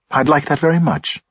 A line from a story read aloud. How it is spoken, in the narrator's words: she said warmly